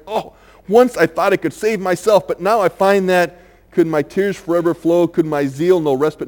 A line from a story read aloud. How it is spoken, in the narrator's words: falls down on his knees and cries